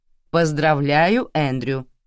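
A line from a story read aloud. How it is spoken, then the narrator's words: Plain. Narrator (Russian): сказала я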